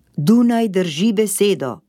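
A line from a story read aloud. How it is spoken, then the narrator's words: Shouting upward. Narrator (Slovenian): je zavpil navzgor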